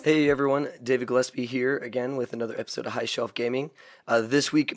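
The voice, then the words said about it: Worn-out, strained voice. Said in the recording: “my voice is a little far gone because of New Year's Eve”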